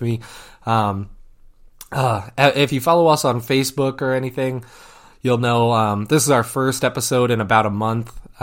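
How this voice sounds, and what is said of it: Congested voice with a cold. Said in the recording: “As you can probably hear in my voice, I have a cold”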